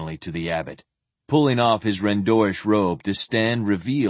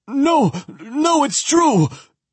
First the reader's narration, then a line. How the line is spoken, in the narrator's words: Elias gasped, his eyes wide with terror